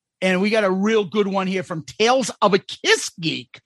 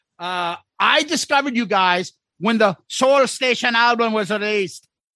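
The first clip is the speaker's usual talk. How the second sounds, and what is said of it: Attempted Irish accent. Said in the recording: “An Irish accent. I don't know. I try to sing it like this, but I can't... Is this offensive if I talk like this”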